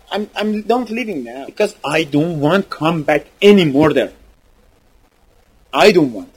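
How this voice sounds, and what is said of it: Non-native English accent. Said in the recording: “with my accent, I said this so funny”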